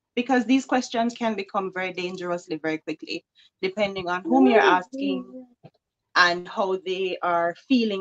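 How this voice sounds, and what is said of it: Jamaican accent. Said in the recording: “you have a beautiful accent. ... I am from Jamaica”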